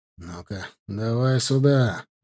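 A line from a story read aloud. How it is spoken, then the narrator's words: Through clenched teeth. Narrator (Russian): процедил я сквозь сжатые зубы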